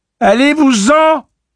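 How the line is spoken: Tearful stuffy shout. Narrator (French): cria-t-elle d'une voix enchifrenée par les larmes qu'elle eut du mal à reconnaître

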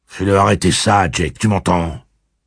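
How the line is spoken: Gruff. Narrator (French): dit Eddie d'un ton bourru

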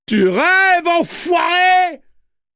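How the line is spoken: Screamed. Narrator (French): hurla-t-elle

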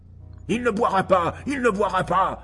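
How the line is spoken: Roaring. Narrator (French): rugit Oldbugs

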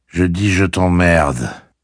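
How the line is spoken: Calm. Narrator (French): répéta calmement Roland

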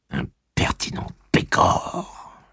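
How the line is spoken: Groaning. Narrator (French): gémit-elle

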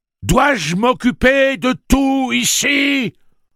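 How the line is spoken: Exasperated thundering. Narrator (French): tonna Tic-Tac, apparemment plus exaspéré que furieux

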